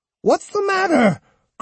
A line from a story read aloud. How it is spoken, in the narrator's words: cried Osugi